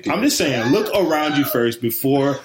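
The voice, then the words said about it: Self-help infomercial style delivery. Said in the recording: “You sound like a commercial right now. You sound like you're some like self help dating commercial infomercial.”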